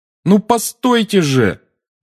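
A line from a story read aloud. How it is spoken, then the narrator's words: Shouted after someone. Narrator (Russian): крикнул Гарри ей вслед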